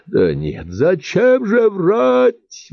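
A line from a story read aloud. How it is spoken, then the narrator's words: Sudden yell. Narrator (Russian): вдруг завопил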